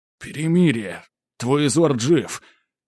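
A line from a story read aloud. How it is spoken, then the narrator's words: Strained forced words. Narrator (Russian): кое-как выдавил я из себя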